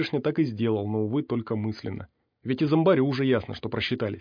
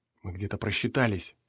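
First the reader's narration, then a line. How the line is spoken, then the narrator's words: Whisper. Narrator (Russian): шепнул химик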